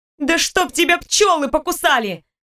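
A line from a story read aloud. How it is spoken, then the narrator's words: Unrestrained shouted outburst. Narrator (Russian): выкрикнула, совершенно позабыв о том, что владельцы успешных компаний так себя не ведут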